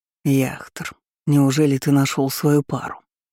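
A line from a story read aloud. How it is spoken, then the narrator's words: Warm breathy exhale. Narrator (Russian): выдохнул он, внезапно одаривая непривычной теплотой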